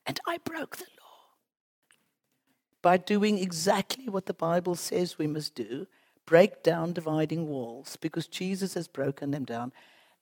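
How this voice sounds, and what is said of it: South African accent. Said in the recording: “by the accent, you know, we come from Cape Town”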